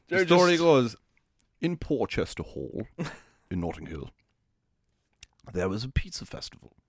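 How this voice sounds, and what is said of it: Put-on posh London accent. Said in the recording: “Is it a posh place? Yeah, let's just say it is. Part of London... accents.”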